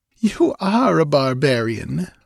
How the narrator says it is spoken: laughed Thalis

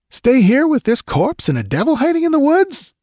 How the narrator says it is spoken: he yelped

